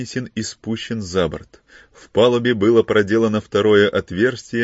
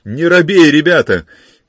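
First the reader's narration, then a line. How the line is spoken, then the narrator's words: Shouted. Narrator (Russian): крикнул Филипп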